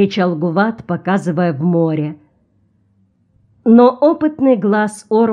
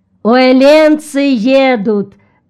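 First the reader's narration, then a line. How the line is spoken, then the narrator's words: Shouted. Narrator (Russian): закричал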